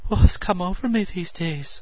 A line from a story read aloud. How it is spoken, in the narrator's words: breathed